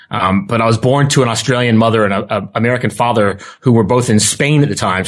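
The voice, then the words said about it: Thick American accent. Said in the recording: “this thick American accent I have”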